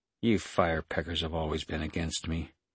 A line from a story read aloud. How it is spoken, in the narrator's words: Saraja said in a cold voice